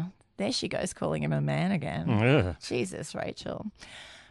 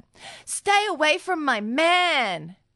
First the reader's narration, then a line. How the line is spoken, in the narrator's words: Sarah ... yelled at her